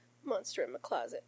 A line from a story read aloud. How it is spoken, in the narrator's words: Finn mumbles against Rodney's shoulder